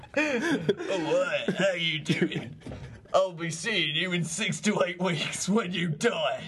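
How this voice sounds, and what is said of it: Cockney-accented devil character voice. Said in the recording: “your Lucifer impression ... Oh, Cockney ... That's Cockneys now”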